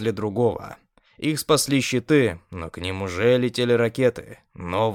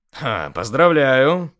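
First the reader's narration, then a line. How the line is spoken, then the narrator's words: Satisfied snort. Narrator (Russian): хмыкнул удовлетворенно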